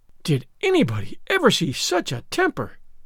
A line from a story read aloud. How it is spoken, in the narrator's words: exclaimed the horrified Mrs